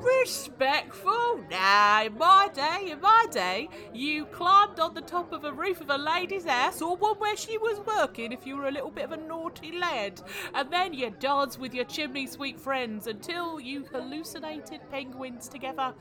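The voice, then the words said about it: Exaggerated put-on Cockney accent. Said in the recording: “Dick Van Dyke ... my completely legitimate Cockney accent”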